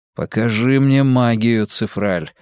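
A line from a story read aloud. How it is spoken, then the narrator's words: Plain. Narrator (Russian): сказал Вуко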